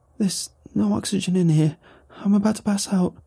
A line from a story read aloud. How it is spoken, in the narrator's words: The woman pleaded